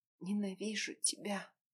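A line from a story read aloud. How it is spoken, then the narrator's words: Barely audible. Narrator (Russian): произнесла еле слышно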